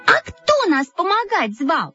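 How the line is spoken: Shouting in unison. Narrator (Russian): закричали мы в один голос

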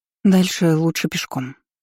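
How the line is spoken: Breathed out. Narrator (Russian): выдохнула я

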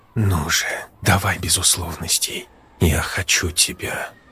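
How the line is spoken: Languid whisper. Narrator (Russian): томно прошептала Рита

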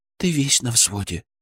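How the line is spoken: Whisper. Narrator (Russian): прошептала она

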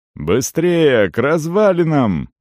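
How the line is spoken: Shouting. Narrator (Russian): крикнул он парню

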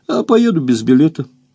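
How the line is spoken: Cheerful. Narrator (Russian): сказал он весело

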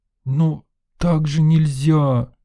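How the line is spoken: Moaning. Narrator (Russian): простонала Лена

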